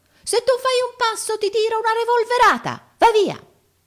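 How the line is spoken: Little man shrieking. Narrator (Italian): l'omino strillò al colosso

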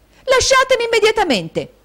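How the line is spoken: Shouting. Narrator (Italian): gridò Caterina

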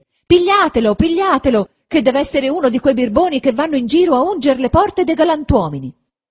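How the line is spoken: Rude woman shouting. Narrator (Italian): quella medesima sgarbata di prima gridava anche lei

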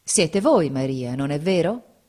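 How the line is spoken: Plain. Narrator (Italian): disse

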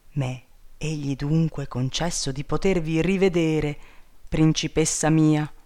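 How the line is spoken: Exclamation. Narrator (Italian): esclamò

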